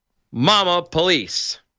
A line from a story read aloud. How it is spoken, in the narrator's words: Parrot started yelling at the police, the bird shouted